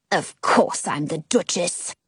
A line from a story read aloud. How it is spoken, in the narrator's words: the woman mutters